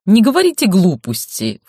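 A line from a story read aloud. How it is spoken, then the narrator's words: Snorting. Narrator (Russian): фыркнула Марго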